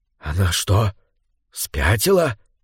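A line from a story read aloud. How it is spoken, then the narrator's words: Whispering. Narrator (Russian): прошептал Флорин Сак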